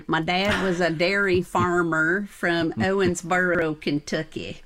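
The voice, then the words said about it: Put-on regional accent. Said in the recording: “I have to do this with the right accent.”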